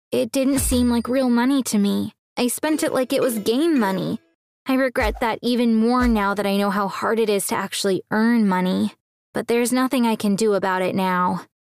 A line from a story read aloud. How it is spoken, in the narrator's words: He said sadly